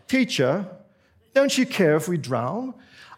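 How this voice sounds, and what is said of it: Polite put-on British accent. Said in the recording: “it's almost like you want them to have a British accent to be very polite.”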